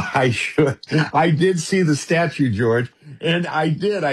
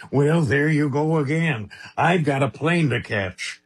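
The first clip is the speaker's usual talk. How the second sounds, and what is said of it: Imitates another person's voice. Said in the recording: “your Reagan impression”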